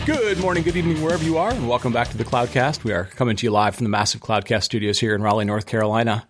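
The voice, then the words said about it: Slightly hoarse voice. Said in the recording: “My voice probably sounds a little hoarse because it is incredibly polleny here”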